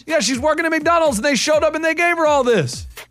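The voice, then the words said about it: Yelling excitedly. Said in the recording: “Why are you yelling?”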